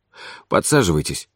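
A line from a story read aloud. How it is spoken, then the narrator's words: Slightly muffled voice. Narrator (Russian): сказал он глуховатым голосом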